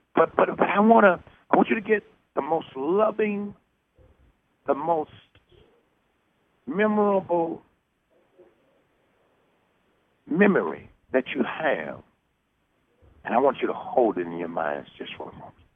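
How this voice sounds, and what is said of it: Scratchy, hoarse voice. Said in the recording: “My voice is a little scratchy tonight.”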